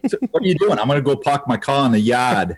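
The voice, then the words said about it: Put-on New England accent. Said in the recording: “You get that northeast and you get that pap ... Throw that New England accent into pop.”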